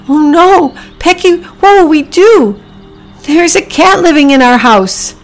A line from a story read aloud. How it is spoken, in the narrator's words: Priscilla cried